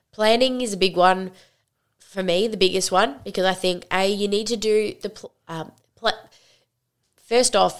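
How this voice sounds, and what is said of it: Congested, slightly odd-sounding voice. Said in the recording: “I'm recovering from like a sinus attack. My sinuses have been so bad today... So if my voice sounds a bit funny, that is why.”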